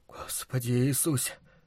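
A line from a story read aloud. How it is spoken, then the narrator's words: Whispered. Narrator (Russian): шептал Луис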